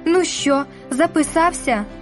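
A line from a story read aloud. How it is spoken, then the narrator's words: Strained anguished question. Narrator (Ukrainian): спиталася якимось надривним голосом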